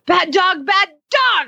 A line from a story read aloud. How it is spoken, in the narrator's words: I yelled